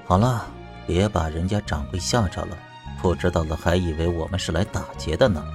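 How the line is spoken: Low voice. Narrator (Chinese): 严怀低声道

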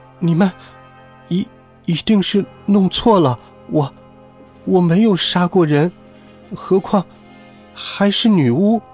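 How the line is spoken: Surprised stammering. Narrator (Chinese): 多罗西很吃惊，他结结巴巴地说

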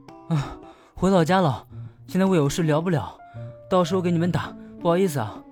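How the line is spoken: Panting. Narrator (Chinese): 只能边喘边道

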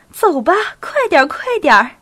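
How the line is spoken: Smiling. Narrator (Chinese): 对吉红、对丈夫和陪送她的仆人们微笑着

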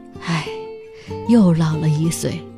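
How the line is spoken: Old man's resigned sigh. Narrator (Chinese): 老人则无可奈何地叹息

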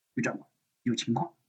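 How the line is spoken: Soft, close whisper. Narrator (Chinese): 毛中心把嘴巴凑过来，轻声说道

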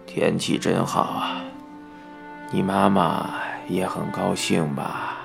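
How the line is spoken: Murmured. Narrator (Chinese): 爸爸喃喃地说

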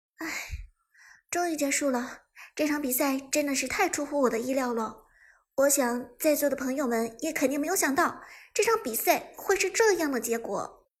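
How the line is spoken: Sighing. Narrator (Chinese): 钱钱叹息道

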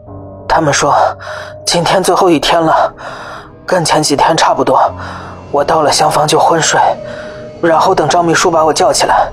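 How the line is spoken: Heavy panting. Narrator (Chinese): 狗子大喘着粗气

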